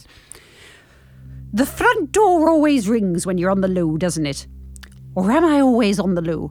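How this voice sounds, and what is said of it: Gruff Scottish accent. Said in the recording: “that difficult Scottish accent, the gruff Scottish accent.”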